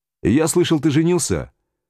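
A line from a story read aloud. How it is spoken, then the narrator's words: Cheerful question. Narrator (Russian): весело спросил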